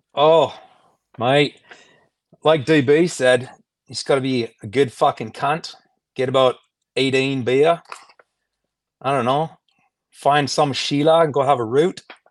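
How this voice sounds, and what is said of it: Put-on Australian accent, fairly good. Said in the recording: “you got to give us your best Aussie accent ... You're not bad. That wasn't bad. Yeah, you've probably done the best so far anyway.”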